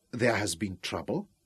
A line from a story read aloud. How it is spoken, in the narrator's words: Juba leaned forward anxiously to ask